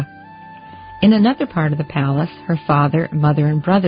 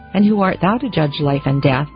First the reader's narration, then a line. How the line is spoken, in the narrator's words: demanded the priest sternly